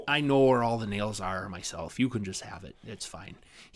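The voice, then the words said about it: Thick Norwegian-style northern Minnesota accent. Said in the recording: “He's got a thick, like, Norwegian ancestry sort of accent, which is normal for a lot of, you know, northern Minnesota and northern Wisconsin.”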